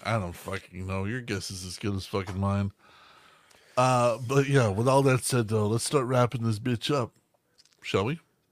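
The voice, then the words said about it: Sick, damaged voice. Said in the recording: “once I stop being sick ... my voice is fucked”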